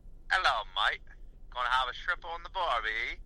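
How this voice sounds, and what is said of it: Weak put-on Australian accent. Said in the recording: “Probably the Australian one. ... I feel like you start out strongly with it, but then really towards the end it gets bad.”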